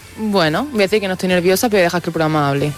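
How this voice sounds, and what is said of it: Almería Spanish accent. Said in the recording (Spanish): “te ha salido tu acento de Almería”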